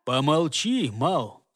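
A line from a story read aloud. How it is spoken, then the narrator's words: Calm rebuke. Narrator (Russian): Спокойно приструнил его голова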